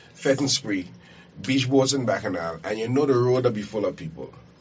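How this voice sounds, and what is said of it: Local dialect rather than standard English. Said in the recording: “I got in my dialect there. Somebody keep telling me, I need to speak proper English.”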